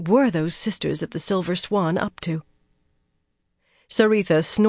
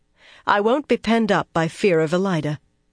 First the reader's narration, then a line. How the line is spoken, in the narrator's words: she went on firmly